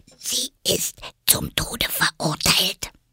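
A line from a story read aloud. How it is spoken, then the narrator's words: Fearful whisper into ear. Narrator (German): Es sah dabei ängstlich über seine Schulter, hielt den Mund dicht an Alice' Ohr und wisperte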